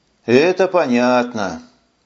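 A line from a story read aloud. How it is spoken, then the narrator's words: Sighed. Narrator (Russian): вздохнул мэр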